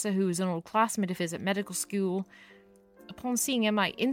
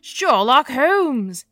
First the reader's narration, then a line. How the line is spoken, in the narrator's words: he shouted